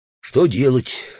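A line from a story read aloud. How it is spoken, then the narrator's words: Hypocritical sigh. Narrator (Russian): лицемерно вздохнул Удалов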